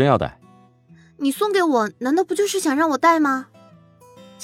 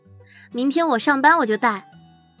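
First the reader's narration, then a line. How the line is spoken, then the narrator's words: Smiling. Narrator (Chinese): 陶如雪笑着说道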